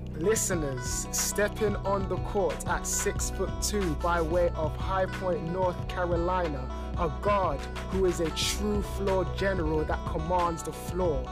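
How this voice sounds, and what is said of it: Sports announcer voice. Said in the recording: “let me get my announcer voice on”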